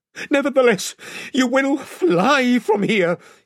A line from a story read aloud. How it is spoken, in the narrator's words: he gasped